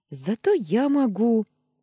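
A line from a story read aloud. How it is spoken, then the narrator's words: Exclaiming. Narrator (Russian): воскликнула Анита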